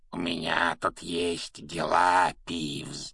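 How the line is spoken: Creaky voice. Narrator (Russian): проскрипел Гарри

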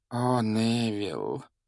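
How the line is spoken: Heavy sigh, elderly woman. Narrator (Russian): тяжело вздохнула пожилая женщина

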